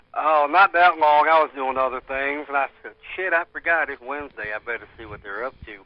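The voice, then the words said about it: Redneck-sounding accent. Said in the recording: “listen to his accent, though. ... That is not even a Florida accent, though. ... Redneck? ... NASCAR watching, redneck, yeah.”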